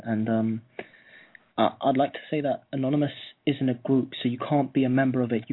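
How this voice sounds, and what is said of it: English accent. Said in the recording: “I'm English, in case you can't hear by my accent.”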